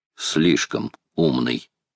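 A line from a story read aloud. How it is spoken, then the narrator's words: Quiet reply. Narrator (Russian): тихо отозвался Макнапс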